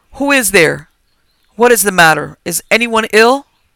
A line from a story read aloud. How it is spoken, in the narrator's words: called out loud